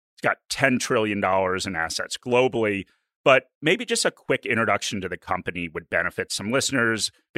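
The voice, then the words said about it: American accent. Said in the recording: “it's not obvious from my accent. I'm an American”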